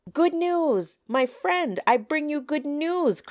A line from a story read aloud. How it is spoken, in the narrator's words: cried